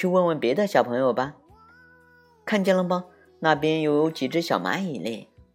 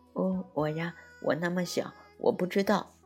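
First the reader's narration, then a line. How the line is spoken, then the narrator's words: Thin tiny voice. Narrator (Chinese): 小蚂蚁的声音细细的，他说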